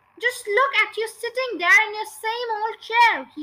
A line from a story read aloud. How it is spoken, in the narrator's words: he cried